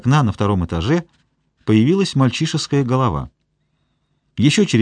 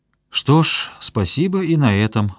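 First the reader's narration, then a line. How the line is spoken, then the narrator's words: Sigh. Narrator (Russian): вздохнул Игорь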